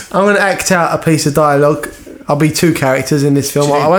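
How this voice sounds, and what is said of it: Usual voice. Nothing is said of it.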